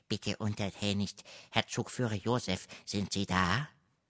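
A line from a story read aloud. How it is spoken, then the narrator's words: Hissing question. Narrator (German): der Zigeuner fragte zischelnd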